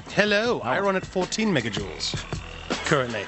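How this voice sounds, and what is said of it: Put-on prim, fancy British-style accent. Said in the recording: “The accent... I wonder if you were doing like a Doctor Who thing or something... He's being fancy... I'm being fancy... You're just being prim.”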